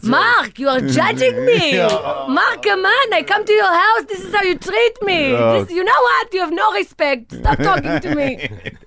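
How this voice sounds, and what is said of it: Loud yelling imitation of an accent. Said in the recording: “Everything is in a yelling voice.”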